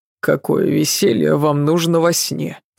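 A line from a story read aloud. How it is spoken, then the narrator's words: Grumpy grumbling. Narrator (Russian): сварливо проворчал Адам, еще не отошедший от ее дышать нечем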